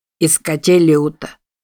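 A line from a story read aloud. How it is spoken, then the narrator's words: Dry, poorly articulated. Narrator (Russian): сухо ответил командир разведчиков, плохо выговаривая слова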